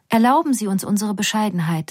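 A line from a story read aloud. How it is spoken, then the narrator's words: Plain. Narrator (German): sagt die Derwisch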